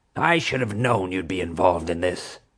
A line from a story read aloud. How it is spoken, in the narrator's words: she snarled